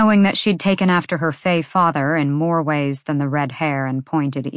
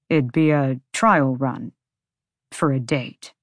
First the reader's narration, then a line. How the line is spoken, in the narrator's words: Connor said through his teeth